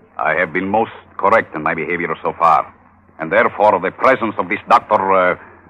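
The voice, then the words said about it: Convincing put-on foreign accent. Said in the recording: “You sound very convincing with that accent.”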